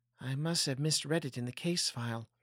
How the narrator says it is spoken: She felt the heat tingle in her cheeks as she whispered

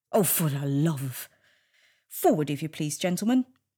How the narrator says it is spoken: Agent Smith snorted

